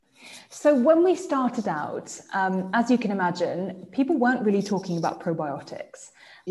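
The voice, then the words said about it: English accent. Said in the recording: “that's my English accent coming out.”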